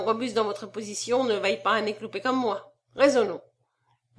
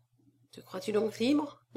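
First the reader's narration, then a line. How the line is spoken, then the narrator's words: Murmured. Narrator (French): murmura-t-il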